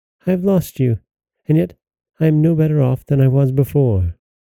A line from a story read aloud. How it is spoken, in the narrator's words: cried the princess